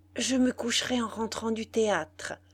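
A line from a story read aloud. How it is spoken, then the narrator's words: Greedy murmur. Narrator (French): murmurait-elle d'un air gourmand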